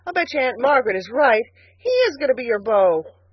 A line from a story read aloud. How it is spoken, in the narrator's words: he exclaimed reproachfully